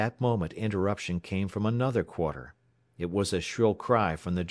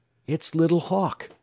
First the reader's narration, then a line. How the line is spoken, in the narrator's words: Alex exclaimed